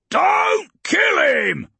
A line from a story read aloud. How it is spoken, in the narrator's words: he could hear Urgork roaring, the warlord